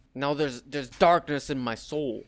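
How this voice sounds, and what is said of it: Todd McFarlane impression sounding like Bernie Sanders. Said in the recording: “I'm reading all of this in Todd McFarlane voice ... I think I'm doing Bernie Sanders.”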